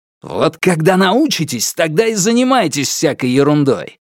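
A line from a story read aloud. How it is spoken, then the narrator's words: Barked. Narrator (Russian): рявкнул Алексей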